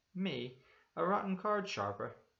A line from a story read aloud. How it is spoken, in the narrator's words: he cried